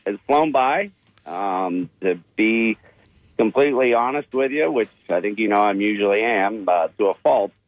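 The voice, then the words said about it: Pennsylvania American accent. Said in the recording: “the accent was from somewhere up there. A little bit north of the Mason-Dixon line ... I'm more of a Pennsylvania guy”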